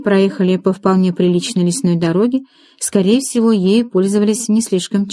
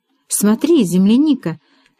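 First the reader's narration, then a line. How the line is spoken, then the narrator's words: Exclaimed. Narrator (Russian): воскликнула Марилина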